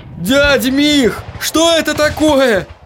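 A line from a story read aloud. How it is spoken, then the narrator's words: Yelling at full strength. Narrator (Russian): Витька что было сил, заорал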